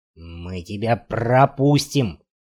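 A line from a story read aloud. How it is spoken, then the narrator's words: Growl breaking into hoarse bark. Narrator (Russian): прорычал он, срываясь на хриплый лай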